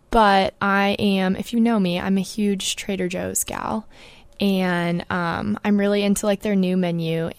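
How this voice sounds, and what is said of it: Voice affected by a cold. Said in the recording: “I want to apologize for my voice this week ... I have a minor cold”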